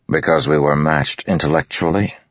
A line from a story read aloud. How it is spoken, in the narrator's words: Dalinar said dryly